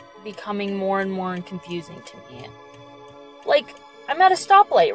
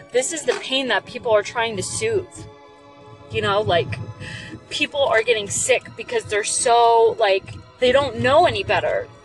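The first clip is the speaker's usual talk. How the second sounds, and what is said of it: Emotional, choked-up voice. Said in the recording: “Oh my God, I'm going to get emotional. ... I'm sorry I'm getting so emotional”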